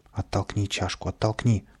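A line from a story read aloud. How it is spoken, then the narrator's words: Muttering. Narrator (Russian): бормотал Каприска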